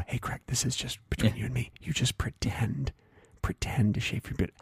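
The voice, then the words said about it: Whispering. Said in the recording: “You're whispering again. When you whisper,”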